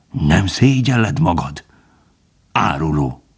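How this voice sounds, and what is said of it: Changed voice, calm, sad, bitter growl. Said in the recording (Hungarian): “Teljesen megváltozott hangon, higgadtan, szomorúan és elkeseredve morogta.”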